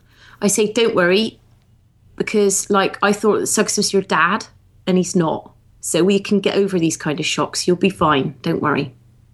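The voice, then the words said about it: Light but convincing Somerset accent. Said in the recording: “What would you say in a Somerset accent? ... a light, kind of L-I-T-E, light version of the accent, but a very good one”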